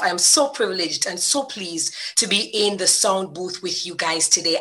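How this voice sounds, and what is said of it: Jamaican accent. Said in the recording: “The accent is a different accent ... This is not Julie's accent, because we know she got that Bajan flair, but this one is Jamaican”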